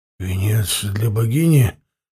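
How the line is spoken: Dazed mumble. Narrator (Russian): Понемногу приходя в себя, пробормотал Сакон

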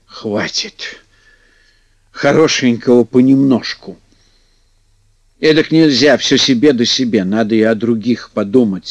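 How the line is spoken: Sighing. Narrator (Russian): вздохнул

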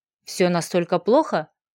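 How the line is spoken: Quiet question. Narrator (Russian): Тихо поинтересовался Гладиус

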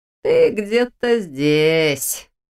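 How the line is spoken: Mocking drawl. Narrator (Russian): насмешливо протянула то, что выглядело как ее ассистент

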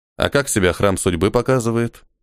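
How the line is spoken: Gloomy question. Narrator (Russian): мрачно спросил Ниэль

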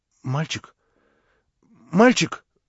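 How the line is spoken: Sickly voice asking. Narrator (Russian): болезненным голосом спросила она

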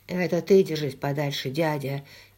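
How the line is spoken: Quiet reply. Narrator (Russian): тихо ответил Йен

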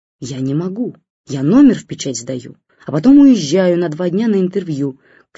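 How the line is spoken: Shouting over bad line. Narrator (Russian): кричала, потому что плохо слышно, ей в ответ бабушка

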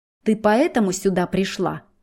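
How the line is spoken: Angry, through clenched teeth. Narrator (Russian): Зло цедит сквозь зубы

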